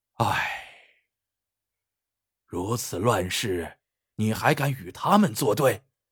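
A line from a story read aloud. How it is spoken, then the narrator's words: Sighing. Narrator (Chinese): 郑大叹了一口气，说道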